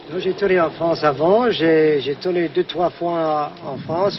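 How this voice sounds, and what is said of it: Strong foreign accent in French. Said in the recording (French): “Mon accent, et c'est terrible”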